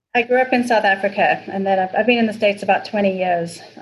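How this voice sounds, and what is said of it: South African accent. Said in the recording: “Accent is everything.”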